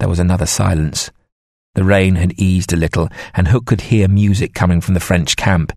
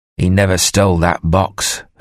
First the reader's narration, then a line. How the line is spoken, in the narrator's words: Hook said harshly